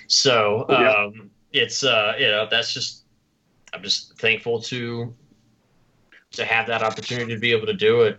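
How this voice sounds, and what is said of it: Southern US accent. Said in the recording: “You probably picked up on my Southern accent by now.”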